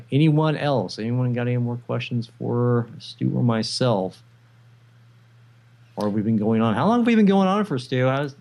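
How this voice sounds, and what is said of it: Ragged, worn-out voice. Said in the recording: “my voice is kind of ragged... my voice is just about at its reach here”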